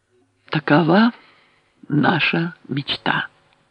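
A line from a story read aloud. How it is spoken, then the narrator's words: Very quiet. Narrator (Russian): заключил он так тихо, что люди в зале напрягли слухи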